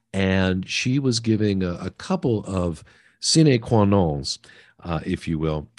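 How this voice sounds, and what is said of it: Latin phrase in French accent. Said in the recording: “I don't know why I pronounce Latin with a French accent”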